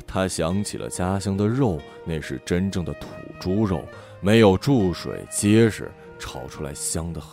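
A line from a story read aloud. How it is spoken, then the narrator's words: Murmuring. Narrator (Chinese): 周汝波喃喃地说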